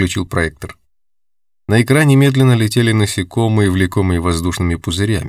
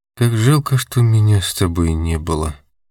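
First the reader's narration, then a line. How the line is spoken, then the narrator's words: Quiet. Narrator (Russian): сказала она тихо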